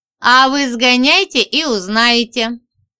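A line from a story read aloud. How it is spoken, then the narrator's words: Short laugh. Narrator (Russian): хохотнул Андрей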